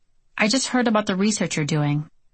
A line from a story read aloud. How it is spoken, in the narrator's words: Senator Ananick said in a quiet, even tone